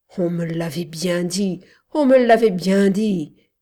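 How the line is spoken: Groan. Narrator (French): gémit-il

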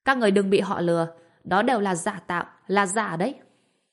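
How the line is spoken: Alarmed shout. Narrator (Vietnamese): Vương Hổ thấy tình hình bất ổn nên lập tức hét

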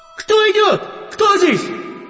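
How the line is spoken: Shouting into ear. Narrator (Russian): вождь краснокожих кричал Биллу или мне в ухо

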